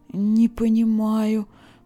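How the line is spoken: Moaning. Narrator (Russian): простонала Леса

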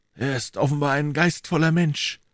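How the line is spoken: Murmured. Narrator (German): murmelte Athos

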